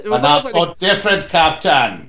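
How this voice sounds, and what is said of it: German accent imitating Christoph Waltz. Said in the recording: “German accent ... an accent like Christoph Waltz”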